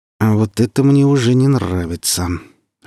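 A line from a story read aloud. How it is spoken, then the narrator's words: Through gritted teeth. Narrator (Russian): вторично за акт процедил Сочинский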